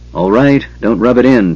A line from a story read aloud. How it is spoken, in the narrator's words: Tanis sighed